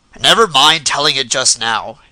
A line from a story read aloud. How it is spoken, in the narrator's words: he said in a gruff voice, but with real gentleness